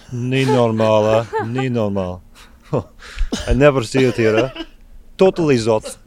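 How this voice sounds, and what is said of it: Exaggerated put-on Belgian accent. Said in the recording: “terrible Belgian accents”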